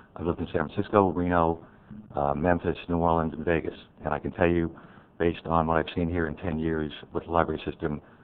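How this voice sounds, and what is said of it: New York accent. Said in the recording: “You can probably detect the New York accent.”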